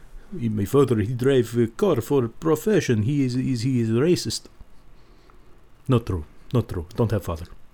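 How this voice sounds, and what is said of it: Put-on Russian accent. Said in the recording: “That's Russian.”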